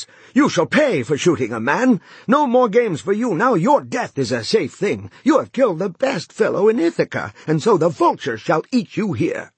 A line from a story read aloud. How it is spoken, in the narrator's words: They shouted angrily